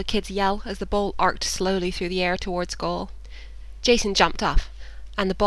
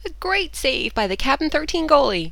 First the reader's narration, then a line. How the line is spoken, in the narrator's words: the announcer said cheerfully